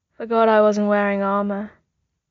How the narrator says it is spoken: Bucky said sleepily

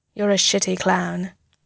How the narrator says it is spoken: he says

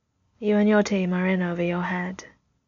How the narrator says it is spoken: he says, his voice calm and remote

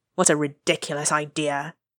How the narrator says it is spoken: muttered the king

